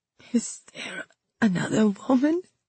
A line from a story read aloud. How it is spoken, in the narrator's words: I croaked, barely able to manage the words